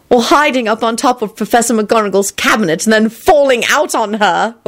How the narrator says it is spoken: Elizabeth added loudly

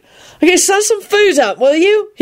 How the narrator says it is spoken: He hollered down at Lupin

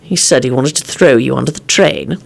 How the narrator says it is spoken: Lupin muttered

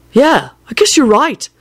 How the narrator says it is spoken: Neville said in a pleased voice

